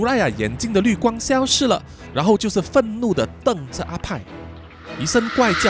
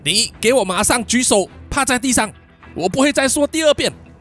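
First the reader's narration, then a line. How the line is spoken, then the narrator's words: Loud shout. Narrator (Chinese): 派大喊说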